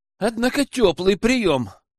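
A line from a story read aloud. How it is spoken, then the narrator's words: Exhaled. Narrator (Russian): выдохнул Лежнев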